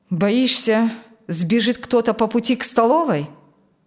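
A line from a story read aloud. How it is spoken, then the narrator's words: Gloomy mutter. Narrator (Russian): Мрачно буркнул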